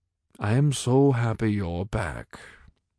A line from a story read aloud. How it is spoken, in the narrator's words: he said flatly